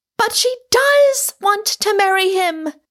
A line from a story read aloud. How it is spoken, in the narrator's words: cried Rosamond in exasperation